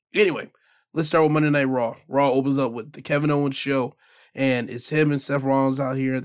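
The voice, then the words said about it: Hoarse, sore, uneven voice. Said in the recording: “my voice is a little bit sore right now. I have a hoarse voice going on right now. So if you hear me in flux, like, it sounds one way and it sounds another way ... I am hoarse a little bit”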